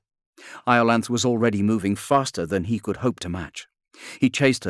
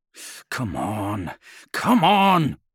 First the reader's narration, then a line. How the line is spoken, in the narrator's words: he muttered